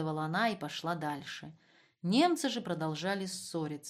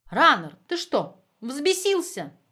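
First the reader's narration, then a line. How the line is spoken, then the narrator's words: Shrieking. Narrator (Russian): визжала Магда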